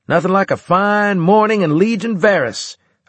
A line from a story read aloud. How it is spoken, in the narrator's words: I shouted